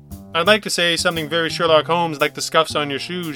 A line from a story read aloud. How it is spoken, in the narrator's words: said